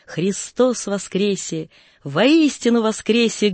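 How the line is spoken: Exclaimed three times. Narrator (Russian): три раза воскликнул

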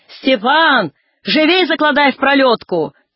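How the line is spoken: Ringing shout. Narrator (Russian): кричала звонко

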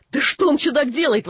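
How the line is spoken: Exclaimed. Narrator (Russian): воскликнул наш бледнолицый брат

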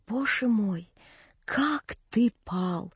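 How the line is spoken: Terrible whisper. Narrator (Russian): сестра сказала ужасным шепотом

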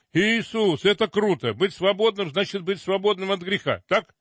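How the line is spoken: Sudden loud shout. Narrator (Russian): вдруг на весь автобус закричал

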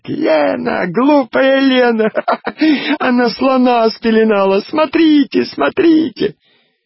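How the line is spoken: Laughing and screaming. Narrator (Russian): стала смеяться и кричать

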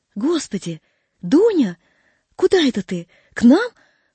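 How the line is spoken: Surprised, joyful exclamation. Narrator (Russian): воскликнула она, удивившись и обрадовавшись в одно и то же время

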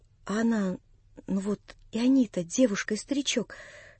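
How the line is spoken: Whispering. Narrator (Russian): шептала она

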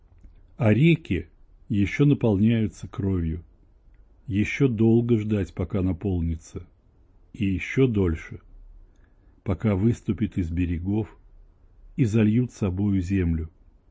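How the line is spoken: Lively old woman answering. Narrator (Russian): живо ответила старица

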